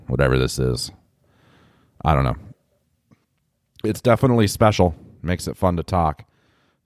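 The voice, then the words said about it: Congested, deep chesty voice. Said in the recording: “battling some sort of just chest cold. I'm super congested and in the chest, and it's made my voice this really sexy radio voice”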